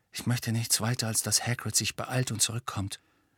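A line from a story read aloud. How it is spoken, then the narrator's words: Quiet. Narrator (German): sagte Harry leise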